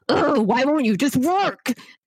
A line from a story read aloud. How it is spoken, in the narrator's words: she like yells at the computer